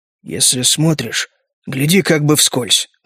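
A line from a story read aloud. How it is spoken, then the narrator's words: Quiet explanation. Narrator (Russian): тихо объяснял капитан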